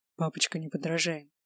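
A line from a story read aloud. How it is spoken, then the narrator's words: Whispered. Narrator (Russian): шепнул он ей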